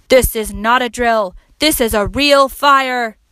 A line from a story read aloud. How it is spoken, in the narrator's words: A voice boomed out the loudspeaker